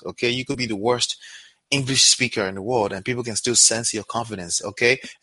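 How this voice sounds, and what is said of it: Non-native English accent. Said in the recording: “you can hear my accent”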